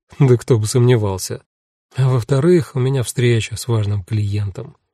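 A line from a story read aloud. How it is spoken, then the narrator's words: Gloomy. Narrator (Russian): мрачно закончила Эва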